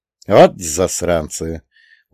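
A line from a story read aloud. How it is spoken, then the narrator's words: Weary curse. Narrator (Russian): устало выругался я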